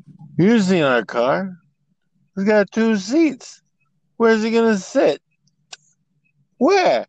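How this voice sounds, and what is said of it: Imitates another person's voice. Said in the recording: “That's my Dean Martin impersonation.”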